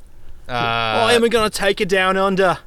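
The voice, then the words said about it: Put-on Australian accent. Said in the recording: “Australian ... Accent.”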